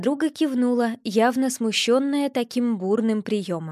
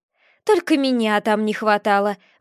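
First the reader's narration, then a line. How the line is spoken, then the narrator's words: Exclaiming. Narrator (Russian): воскликнула мама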